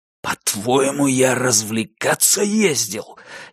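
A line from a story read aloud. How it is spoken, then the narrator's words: Furious whisper. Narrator (Russian): яростным шепотом переспрашивает Альфред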